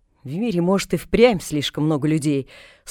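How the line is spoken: Grumbling. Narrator (Russian): снова проворчала

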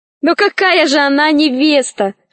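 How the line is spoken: Laughing. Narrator (Russian): рассмеялась Алиса

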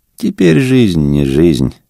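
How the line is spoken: Sighing innkeeper. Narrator (Russian): сказал корчмарь и вздохнул

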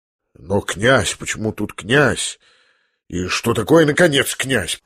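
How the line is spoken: Barely contained indignant mutter. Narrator (Russian): пробормотал князь, почти уж не в силах сдержать свое негодование

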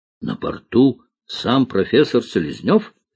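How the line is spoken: Plain question. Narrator (Russian): спросил главный спасатель

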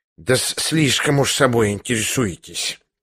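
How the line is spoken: Hiss. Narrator (Russian): прошипел Лебедев

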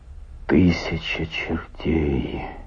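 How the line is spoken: Muttered. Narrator (Russian): пробормотал Стильтон

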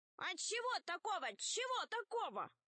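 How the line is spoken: Shouted. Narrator (Russian): закричала одна из ящериц

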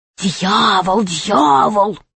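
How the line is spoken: Many voices whispering. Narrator (Russian): все зашептали

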